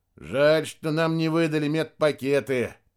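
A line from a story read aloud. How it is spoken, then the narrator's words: Grumbling. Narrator (Russian): проворчал Рядошкин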